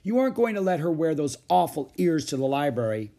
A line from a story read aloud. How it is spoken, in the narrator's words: wailed Beezus